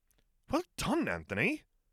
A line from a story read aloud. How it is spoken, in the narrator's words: Hermione exclaimed